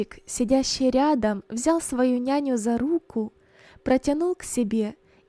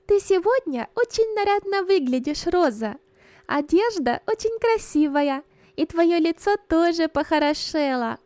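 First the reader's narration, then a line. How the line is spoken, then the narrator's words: Little girl speaking. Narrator (Russian): маленькая Берта сказала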